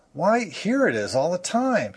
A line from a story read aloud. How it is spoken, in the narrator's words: he exclaimed indignantly